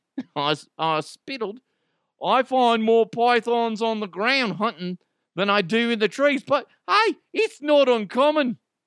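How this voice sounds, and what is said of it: Poorly attempted Australian accent. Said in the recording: “I totally screwed up that accent... Australian people are like, who the fuck is this guy?”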